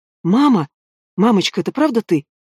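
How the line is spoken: Soft calling. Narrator (Russian): Эля не выдержала и тихонько позвала

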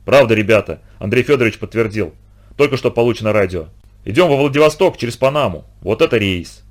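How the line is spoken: Beaming solemn announcement. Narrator (Russian): Сашка вернулся сияющим и торжественно объявил

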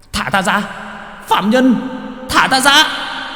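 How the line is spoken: Shrieking. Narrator (Vietnamese): rít lên

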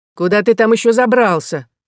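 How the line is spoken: Mock-angry, secretly glad question. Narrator (Russian): спросил он сердито, хотя по лицу Адама можно было увидеть, что он крайне рад возвращению Роланда

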